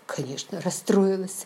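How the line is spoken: Snapping. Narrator (Russian): огрызнулась

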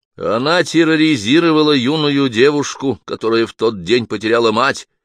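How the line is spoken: Plain. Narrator (Russian): сказал Том

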